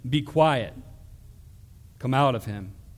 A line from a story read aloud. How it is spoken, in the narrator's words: Jesus said sternly